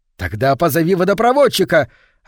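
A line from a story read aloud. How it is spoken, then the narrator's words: Desperate wail. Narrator (Russian): отчаянно завопил голос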